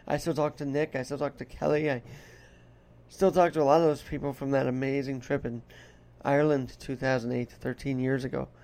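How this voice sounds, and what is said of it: Put-on Irish brogue, strained voice. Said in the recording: “doing this accent is very tough because I noticed the lungs and the breathing is very different than when you talk in this style. And then when you get into your Irish brogue, it's a little more strain on the voice.”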